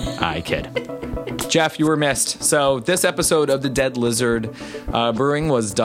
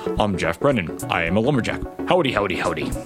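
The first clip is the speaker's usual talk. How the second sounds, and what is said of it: Imitates another person's voice. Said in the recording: “I'm going to do it in my Brennan voice.”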